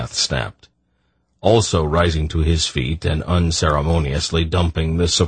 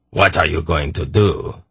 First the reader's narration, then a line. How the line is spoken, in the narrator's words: Zakath demanded scornfully